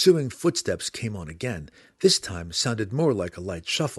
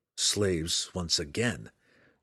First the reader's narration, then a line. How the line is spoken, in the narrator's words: Drizzt said grimly